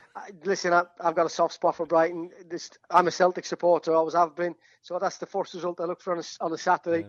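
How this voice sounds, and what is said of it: Irish accent with Yorkshire tinge. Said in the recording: “Your Irish accent's got a little bit Yorkshire as well”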